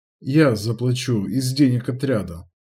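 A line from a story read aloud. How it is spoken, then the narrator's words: Calm. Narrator (Russian): спокойно пояснил Нач-волк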